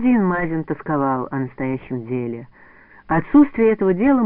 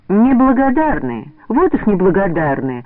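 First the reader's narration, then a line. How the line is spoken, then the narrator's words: Indignant shouting. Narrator (Russian): возмущенно кричала Лида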